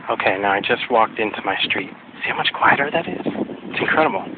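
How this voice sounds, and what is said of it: Hoarse, strained voice. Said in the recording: “I'm losing my voice. This doesn't help to talk like this after a cold.”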